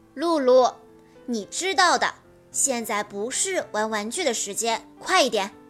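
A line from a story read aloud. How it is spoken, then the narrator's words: Loud. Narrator (Chinese): 妈妈 她大声地说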